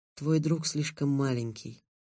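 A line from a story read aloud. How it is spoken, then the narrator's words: Soft. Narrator (Russian): мягко сказала Гаррет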